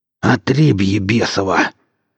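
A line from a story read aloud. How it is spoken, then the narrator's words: Wheezing hoarse voice. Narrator (Russian): прохрипел Качака сквозь свистящие потоки вдыхаемого воздуха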